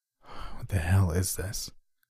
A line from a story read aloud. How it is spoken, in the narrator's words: I murmured to myself